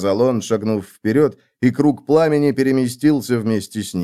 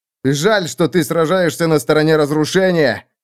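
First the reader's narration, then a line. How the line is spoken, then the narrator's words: Shouted from afar. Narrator (Russian): крикнул он оттуда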